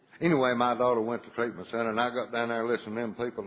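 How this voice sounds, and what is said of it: Speaks with a noticeable accent. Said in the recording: “Y'all ain't laughing at my accent, are you?”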